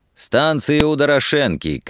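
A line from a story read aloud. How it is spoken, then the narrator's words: Shouted after someone. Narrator (Russian): крикнул Лихонин вслед отъезжавшим извозчикам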